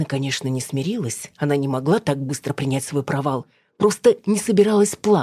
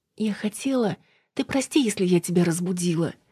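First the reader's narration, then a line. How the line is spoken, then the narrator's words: Agitated babbling. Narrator (Russian): залепетала Снежана взволнованно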